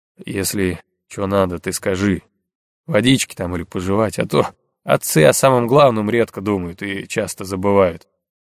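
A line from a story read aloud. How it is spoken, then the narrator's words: Quiet voice. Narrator (Russian): негромко сказал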